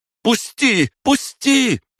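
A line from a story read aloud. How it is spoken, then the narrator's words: Struggling scream. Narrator (Russian): закричала девушка, пытаясь вырваться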